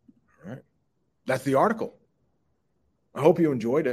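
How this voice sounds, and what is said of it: Usual voice. Nothing is said of it.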